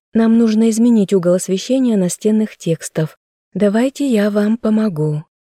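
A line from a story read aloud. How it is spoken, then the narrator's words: Soft but firm. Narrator (Russian): мягко, но непреклонно предложила я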